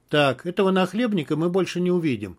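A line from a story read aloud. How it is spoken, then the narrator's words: Calm. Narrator (Russian): спокойно сказал Тимур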